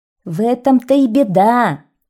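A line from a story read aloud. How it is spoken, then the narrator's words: Exclaimed. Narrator (Russian): воскликнул Клёст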